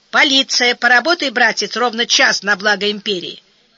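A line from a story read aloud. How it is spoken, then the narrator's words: Stern. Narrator (Russian): Линдер строго сказал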